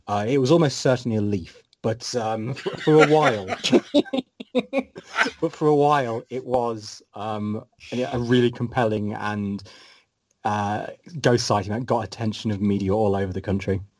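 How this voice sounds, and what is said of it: British accent with slight Scottish tinge. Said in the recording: “kind of got a mix of accent right now, because I hear a little bit of the Scottish accent, but it's far more British”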